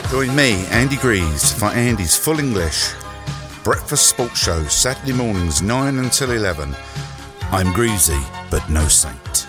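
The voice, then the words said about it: London accent. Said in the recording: “London accent”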